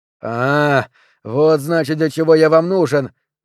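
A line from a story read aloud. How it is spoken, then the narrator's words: Shouting. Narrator (Russian): закричал Перри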